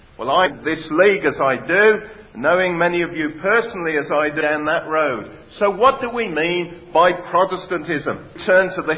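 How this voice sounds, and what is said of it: West Midlands English accent. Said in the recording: “probably picked up from my accent, I come from the West Midlands”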